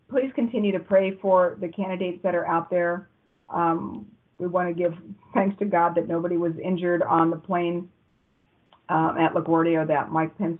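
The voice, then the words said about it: Worn-out, hoarse voice. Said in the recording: “that's been an hour and 38 minutes, everybody, and my voice is toast”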